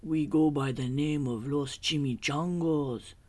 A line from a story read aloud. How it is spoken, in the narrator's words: growled Don Diego, the biggest of the small ones